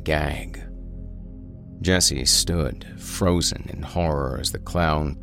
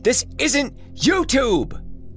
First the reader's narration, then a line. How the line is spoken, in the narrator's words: Jesse shouted after him, but clearly too frightened